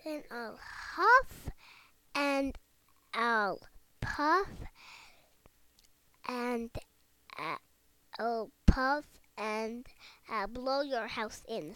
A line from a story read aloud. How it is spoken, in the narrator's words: said the wolf